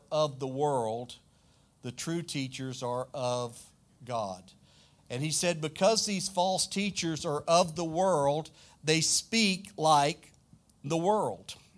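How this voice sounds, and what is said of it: Southern US accent. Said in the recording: “I'm from the deep south in the United States. If you're American, you know what I'm talking about. You can probably hear it in my accent some. I'm from South Louisiana. Way south. We say y'all.”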